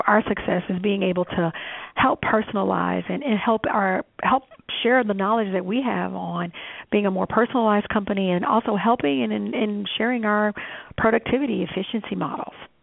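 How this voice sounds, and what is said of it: Southern drawl. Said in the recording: “I love that Southern drawl.”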